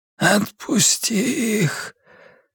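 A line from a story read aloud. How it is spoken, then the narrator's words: Barely audible rasp. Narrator (Russian): еле слышно прохрипел он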